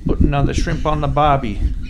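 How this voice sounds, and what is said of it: Poor put-on Australian accent. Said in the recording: “my Australian accent's about as good as my British accent”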